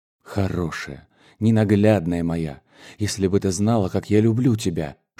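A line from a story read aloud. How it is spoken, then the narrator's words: Passionate whisper. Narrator (Russian): шептал он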